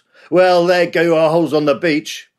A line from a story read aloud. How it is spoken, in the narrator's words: One of the youngsters spoke for everyone when he gave a cynical shout